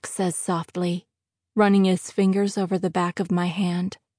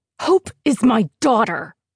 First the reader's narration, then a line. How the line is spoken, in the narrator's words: hiss